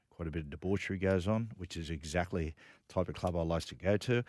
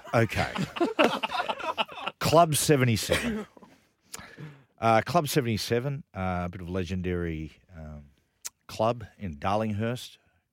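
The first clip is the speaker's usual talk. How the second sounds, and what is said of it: Imitates another person's voice. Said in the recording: “doing a Vess Hadley impersonation”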